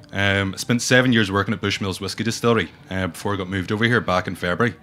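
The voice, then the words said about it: Northern Irish north coast accent. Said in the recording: “as soon as I open my mouth, you just see their eyebrows raise going, what is this accent? ... I'm right up from the north coast of Ireland, so it's not your traditional rhythmical Irish accent”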